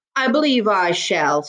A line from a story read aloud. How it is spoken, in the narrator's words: said the man